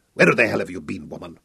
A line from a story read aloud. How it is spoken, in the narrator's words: he snarled at Tessay